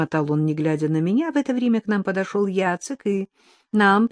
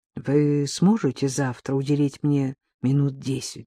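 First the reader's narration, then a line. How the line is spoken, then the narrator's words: Undertone question. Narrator (Russian): пан Юргу спросил меня вполголоса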